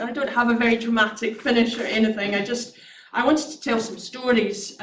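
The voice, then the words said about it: Strained, failing hoarse voice. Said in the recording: “My throat's actually, my voice is going”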